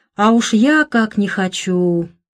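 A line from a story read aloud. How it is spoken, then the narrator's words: Sigh. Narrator (Russian): вздохнула Олимпия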